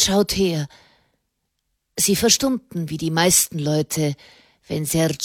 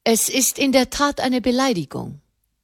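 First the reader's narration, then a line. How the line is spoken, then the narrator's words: Plain. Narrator (German): sagte die Dini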